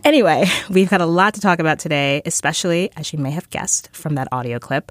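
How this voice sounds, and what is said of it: Groggy, slightly sick-sounding voice. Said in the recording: “I'm a little sick ... I apologize if my voice sounds a little groggier than usual”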